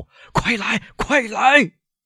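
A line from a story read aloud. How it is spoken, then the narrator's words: Shout. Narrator (Chinese): 他喊道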